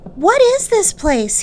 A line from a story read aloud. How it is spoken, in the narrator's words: he called out